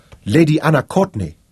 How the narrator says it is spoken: Victoria exclaimed

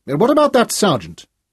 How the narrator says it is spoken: He blurted out suddenly

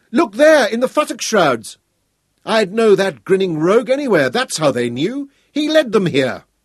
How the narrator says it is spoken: Hal shouted again

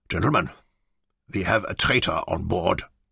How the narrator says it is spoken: he said in a cold, hard tone

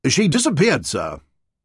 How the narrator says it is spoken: He took a deep breath and said firmly

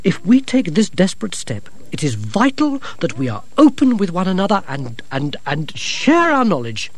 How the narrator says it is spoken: said Gerda sharply

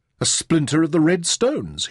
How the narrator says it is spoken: he exclaimed

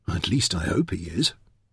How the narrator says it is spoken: under his breath he added

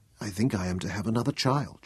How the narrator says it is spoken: whispered

